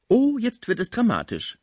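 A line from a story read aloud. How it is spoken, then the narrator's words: Call. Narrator (German): rief die schöne Heloise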